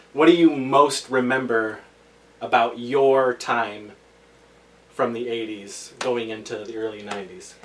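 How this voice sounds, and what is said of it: Loud, projected speaking voice. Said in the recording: “you're yelling... I gotta project”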